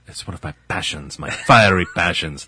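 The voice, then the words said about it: Poor imitation of another person's voice. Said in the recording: “like Antonio Banderas. That's a terrible impression.”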